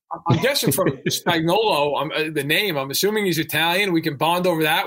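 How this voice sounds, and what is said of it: Northeastern US accent. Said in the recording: “You both have that Northeastern accent”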